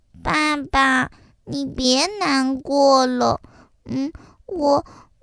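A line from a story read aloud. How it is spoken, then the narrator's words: Soft quiet voice. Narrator (Chinese): 鸡蛋妹妹小声的对爸爸说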